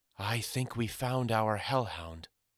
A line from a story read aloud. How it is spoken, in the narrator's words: Mamma whispered fearfully